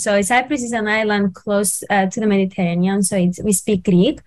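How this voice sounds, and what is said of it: Greek Cypriot accent. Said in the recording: “I'm from Cyprus. That's why you can see I have the accent.”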